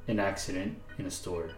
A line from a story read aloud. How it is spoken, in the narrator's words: David mumbles